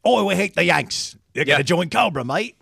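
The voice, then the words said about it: Put-on British or Australian accent. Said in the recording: “Why did you go Australian, though? ... That's a fair British accent.”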